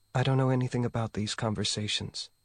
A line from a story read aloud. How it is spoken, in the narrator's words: Ye said softly